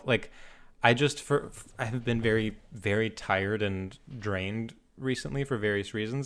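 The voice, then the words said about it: Fake professional radio voice. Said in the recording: “I'm doing like radio voice ... fake professional voice ... radio voice”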